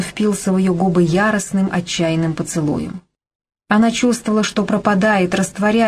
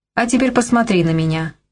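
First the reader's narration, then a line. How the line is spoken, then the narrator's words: Curt command. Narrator (Russian): отрывисто приказал Торп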